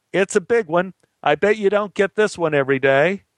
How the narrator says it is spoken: I yelled back

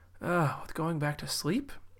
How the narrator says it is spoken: yawned a half-awake Rachel

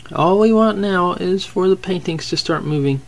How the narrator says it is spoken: Adam had sarcastically said

